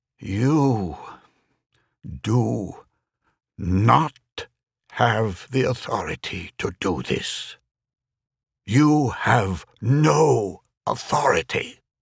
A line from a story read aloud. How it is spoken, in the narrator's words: Speaking slowly, he said